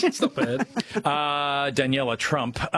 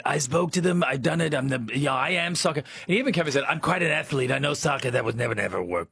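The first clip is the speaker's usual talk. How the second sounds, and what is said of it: Imitates another person's voice. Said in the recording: “That's an amazing impersonation.”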